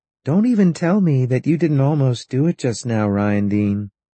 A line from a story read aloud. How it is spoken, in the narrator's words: said over her shoulder in her singing voice, the voice that knew everything and made nothing matter